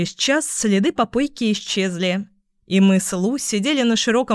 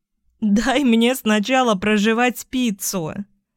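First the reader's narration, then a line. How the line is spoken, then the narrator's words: Laughing with full mouth. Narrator (Russian): Засмеялась с набитым ртом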